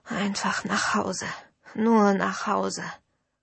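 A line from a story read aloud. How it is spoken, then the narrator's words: Dull murmur between coughing fits. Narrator (German): murmelte ich immer wieder dumpf zwischen bösen Hustenanfällen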